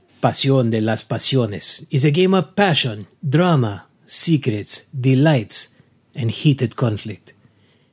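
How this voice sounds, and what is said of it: Dramatic telenovela announcer voice. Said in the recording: “it's time for the telenovela voice”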